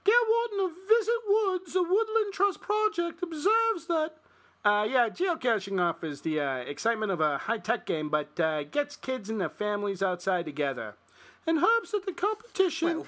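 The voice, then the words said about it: Put-on New Jersey accent. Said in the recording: “what kind of accent was that? ... I think I went kind of Jersey. ... That wasn't your typical Chicago one. ... doing a Jersey accent.”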